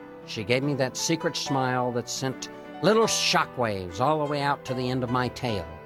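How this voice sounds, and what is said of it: Usual voice. Nothing is said of it.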